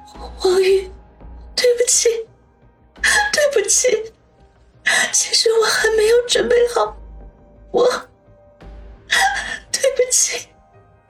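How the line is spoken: Sobbing, barely audible. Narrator (Chinese): 杨思思抽泣了起来，细不可闻的说

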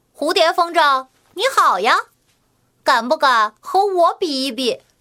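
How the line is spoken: Cheerful laughing greeting. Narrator (Chinese): 笑着和它打招呼

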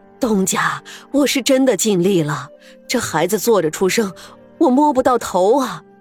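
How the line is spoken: Old woman, panting. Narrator (Chinese): 这街上的婆子 连连喘息着说

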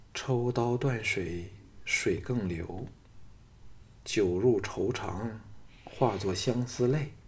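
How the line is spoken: Murmured recitation. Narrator (Chinese): 金王后喃喃念道

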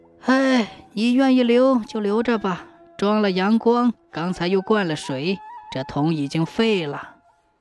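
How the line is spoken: Old woman sighing. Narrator (Chinese): 老婆婆叹了口气说

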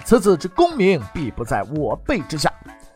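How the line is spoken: Loud prophetic declaration. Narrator (Chinese): 首辅杨廷和，他高声的预言

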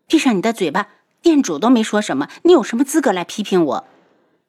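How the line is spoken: Angry. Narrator (Chinese): 陈旭宇 有些恼怒

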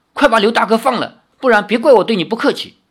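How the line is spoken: Loud. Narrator (Chinese): 林月如大声地说

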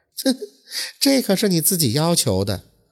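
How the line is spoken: Woman, laughing. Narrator (Chinese): 那女子就笑着说道

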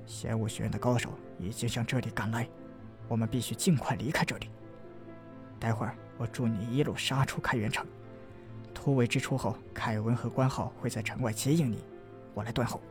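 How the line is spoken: Low voice. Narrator (Chinese): 杨凌低声道

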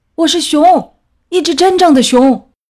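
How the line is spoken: Roaring bear. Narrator (Chinese): 大熊吼着

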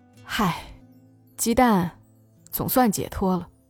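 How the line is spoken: Sighing. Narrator (Chinese): 华子叹口气，接着说

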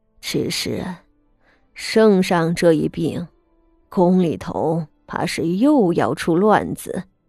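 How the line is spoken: Deep grave voice. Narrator (Chinese): 他沉声道

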